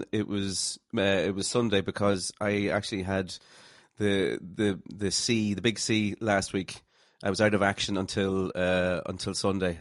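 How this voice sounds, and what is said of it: Sexy voice after illness. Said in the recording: “Is that where you've got your sexy voice from? ... it's always sexy. It was more sexy last week. I was like Phoebe in Friends. Remember, she got the sexy voice.”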